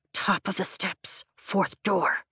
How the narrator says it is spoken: I hiss

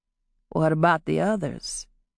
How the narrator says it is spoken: he asked quietly

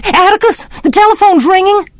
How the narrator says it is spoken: Suddenly, Jem screamed

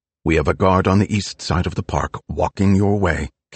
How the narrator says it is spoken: Kate said

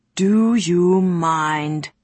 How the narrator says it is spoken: Someone growled nearby

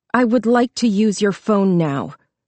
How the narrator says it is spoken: she said coldly

